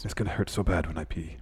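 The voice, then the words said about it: Poor Aleister Black impression. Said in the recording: “my poor impersonation of Aleister Black”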